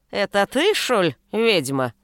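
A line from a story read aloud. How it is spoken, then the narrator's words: Grumpy querulous question. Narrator (Russian): сварливым голосом уточнила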